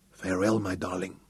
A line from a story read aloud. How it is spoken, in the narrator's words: he whispered